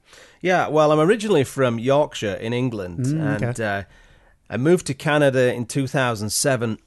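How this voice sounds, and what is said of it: English accent. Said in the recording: “it's the accent, too. ... Always the accent.”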